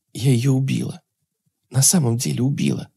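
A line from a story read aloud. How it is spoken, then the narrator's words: Certain whisper. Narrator (Russian): шептала Ирина с ей самой непонятной уверенностью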